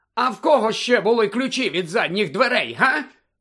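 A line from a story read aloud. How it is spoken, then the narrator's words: Barked. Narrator (Ukrainian): гаркнула куховарка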